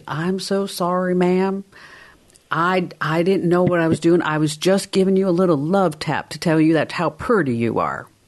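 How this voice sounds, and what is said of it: Put-on Southern American accent. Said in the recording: “in that southern accent”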